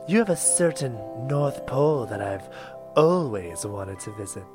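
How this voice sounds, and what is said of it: Coy female character voice. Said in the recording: “in a coy voice”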